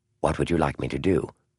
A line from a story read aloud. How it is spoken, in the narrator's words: Adams said softly